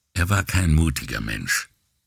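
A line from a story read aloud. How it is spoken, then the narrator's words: Calm, then hesitant. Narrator (German): antwortete Guarino ruhig und fügte zögernd hinzu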